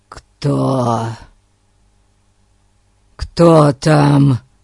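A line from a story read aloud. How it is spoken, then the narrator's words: Hoarse rasp. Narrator (Russian): прохрипел он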